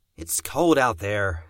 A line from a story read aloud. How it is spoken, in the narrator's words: growled